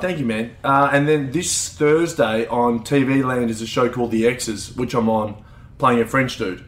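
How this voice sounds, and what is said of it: Broad Australian accent. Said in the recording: “you have quite a broad Australian accent.”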